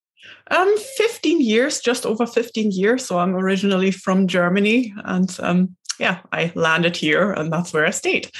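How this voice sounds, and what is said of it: German accent with Scottish hints. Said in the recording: “that beautiful accent... I can hear the little bit of Scottish creeping in. You roll your R's and there's a little bit of a hint”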